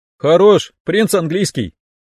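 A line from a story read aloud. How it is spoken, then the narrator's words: Short laugh. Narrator (Russian): хохотнул я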